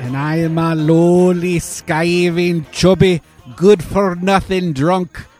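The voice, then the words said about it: Put-on Scottish accent. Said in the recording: “Is that your best Scottish accent? ... I would have guessed Scotland.”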